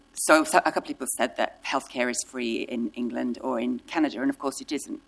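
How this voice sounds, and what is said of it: British-tinged accent. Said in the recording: “You can tell by my accent, which, by the way, is more British”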